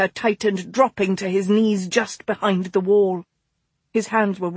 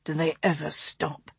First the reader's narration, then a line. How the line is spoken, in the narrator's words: August whispered roughly beside her